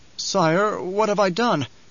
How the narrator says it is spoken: Nefood quavered

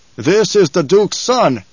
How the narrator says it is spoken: Stilgar barked

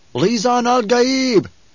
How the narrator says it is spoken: One cried out

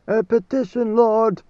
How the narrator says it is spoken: the leaders cried

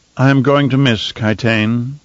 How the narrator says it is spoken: Fenring said in an odd, somber tone

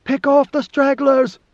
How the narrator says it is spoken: She shouted above the battle noise

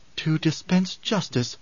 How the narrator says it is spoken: she murmured

